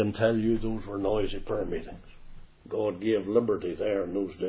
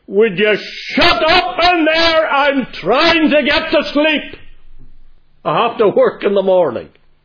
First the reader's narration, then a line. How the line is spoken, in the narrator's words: suddenly a man shouted